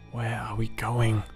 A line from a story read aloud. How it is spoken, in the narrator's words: Alyssa hissed